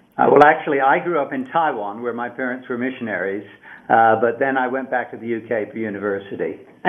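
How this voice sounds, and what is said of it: British English accent. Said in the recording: “you guys grew up in the UK, right? I mean, people can figure that out by your accents... You don't sound like you're from, Asia”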